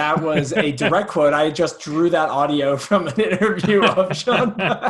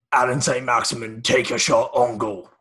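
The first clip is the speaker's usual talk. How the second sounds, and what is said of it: Impression of Sean Dyche. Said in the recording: “do a Sean Dyche impression”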